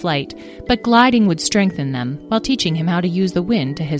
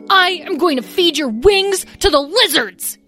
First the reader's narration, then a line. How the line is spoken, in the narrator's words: yelled Lyle